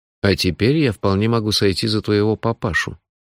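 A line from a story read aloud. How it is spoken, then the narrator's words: Gloomy. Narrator (Russian): мрачно кивнул я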